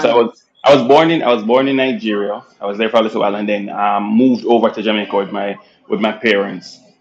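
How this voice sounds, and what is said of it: Jamaican accent. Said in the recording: “your accent is very, very much Jamaican”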